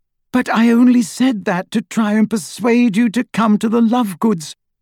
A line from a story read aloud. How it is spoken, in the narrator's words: cried Hermione in exasperation